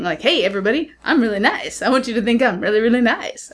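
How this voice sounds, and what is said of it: Showy sing-song put-on voice. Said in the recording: “What's that accent? ... sung and dance, you know, jazz hands all the time”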